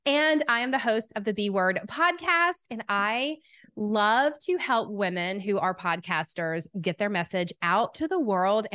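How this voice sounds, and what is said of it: Strong Southern US accent. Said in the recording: “the southern accent, I've been told it's quite strong”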